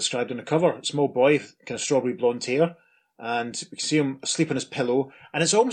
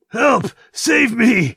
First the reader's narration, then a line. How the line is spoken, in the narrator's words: The man floating in the water is yelling